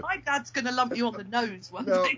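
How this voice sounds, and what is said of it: Imitated accent of a listener. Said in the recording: “trying to do the accent ... trying to do Billy”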